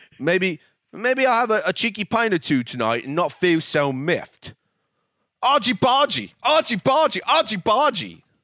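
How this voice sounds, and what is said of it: Bad put-on British accent. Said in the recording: “probably the worst British accent I've ever heard”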